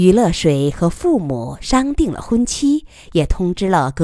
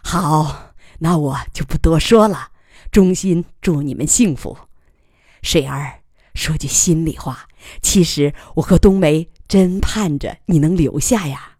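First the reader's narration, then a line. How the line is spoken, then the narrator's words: Hearty laughing. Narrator (Chinese): 爽朗的笑道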